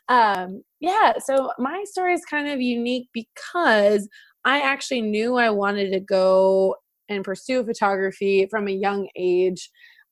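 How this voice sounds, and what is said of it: Slight Midwestern American accent. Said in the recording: “if you hear a little Midwest accent, that's popping through.”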